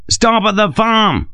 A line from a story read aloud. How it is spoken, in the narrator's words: Sharp bellowed